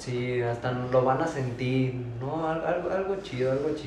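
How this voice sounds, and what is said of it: Usual voice. Nothing is said of it.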